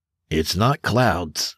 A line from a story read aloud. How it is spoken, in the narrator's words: Granger said